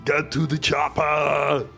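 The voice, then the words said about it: Screamed line in Austrian accent. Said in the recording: “screams ... bubbles in an Austrian accent”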